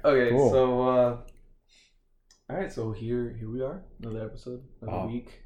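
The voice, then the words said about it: Formal podcast-host voice. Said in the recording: “The official voice again. ... my podcast voice. ... You're using your table voice right now. ... I change my voice and I get very formal”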